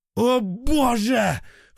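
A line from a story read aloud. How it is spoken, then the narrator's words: Panicked yell. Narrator (Russian): в панике заорал Фома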